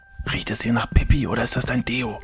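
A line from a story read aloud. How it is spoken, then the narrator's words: Frightened whisper. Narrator (German): flüstert David, als er ängstlich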